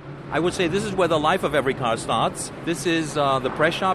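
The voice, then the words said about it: Perfect American English accent. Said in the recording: “perfect American accent”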